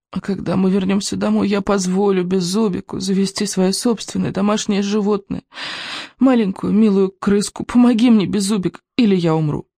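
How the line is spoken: Hoarse rasp. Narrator (Russian): прохрипел Икинг

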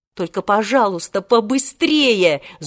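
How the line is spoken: Angry. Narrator (Russian): зло сказал Волька

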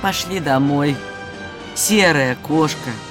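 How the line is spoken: Tired smiling voice. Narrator (Russian): устало улыбнулась и сказала

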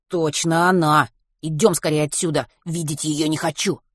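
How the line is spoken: Hissing. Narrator (Russian): прошипел Матвей

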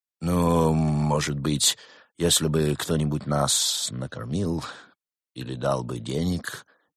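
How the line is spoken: Hesitant, unsure. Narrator (Russian): неуверенно произнес енот

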